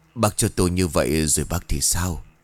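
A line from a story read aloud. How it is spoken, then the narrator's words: Soft, gentle speech. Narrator (Vietnamese): Bà cô khẽ cất lời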